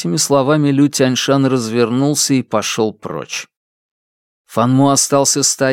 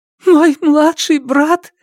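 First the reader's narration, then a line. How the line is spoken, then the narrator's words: Sobbing woman. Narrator (Russian): всхлипывала Лю Хэйян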